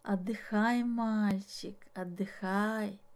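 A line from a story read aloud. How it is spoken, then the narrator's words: Quiet calm voice. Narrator (Russian): сказал он тихим, спокойным голосом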